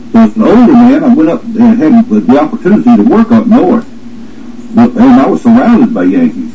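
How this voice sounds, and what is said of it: Southern US accent. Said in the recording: “Because of my southern accent”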